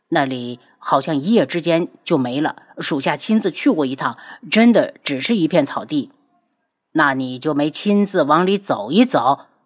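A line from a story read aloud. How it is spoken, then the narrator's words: Low, timid. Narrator (Chinese): 冰烈不敢看门主，低声道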